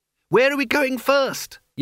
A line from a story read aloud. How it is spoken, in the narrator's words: yelled Isabel in his ear